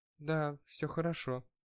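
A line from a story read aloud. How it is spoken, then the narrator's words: Quiet, smiling. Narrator (Russian): тихо сказала она с улыбкой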